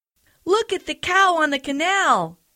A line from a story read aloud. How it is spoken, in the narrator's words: they cried